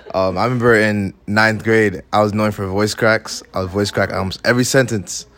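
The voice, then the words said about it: Naturally deep male voice. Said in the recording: “where'd you get your deep voice from ... my deep voice came from, of course, puberty”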